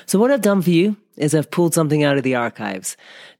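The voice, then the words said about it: Slightly strained voice. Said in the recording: “my voice is a little bit strained at the moment”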